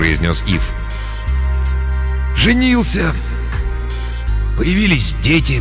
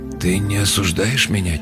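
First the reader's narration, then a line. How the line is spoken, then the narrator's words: Quiet question. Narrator (Russian): тихо спросил Ив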